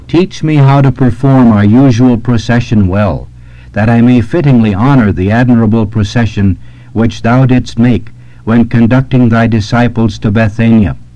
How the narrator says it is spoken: exclaimed the saint

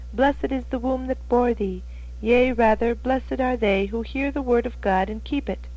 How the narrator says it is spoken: the woman spoken of in the Gospel, who exclaimed

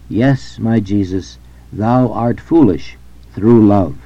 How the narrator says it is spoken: Mary Magdalene de Pazzi exclaimed

